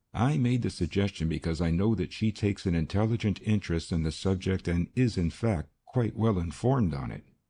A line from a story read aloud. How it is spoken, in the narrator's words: he continued in the same even tone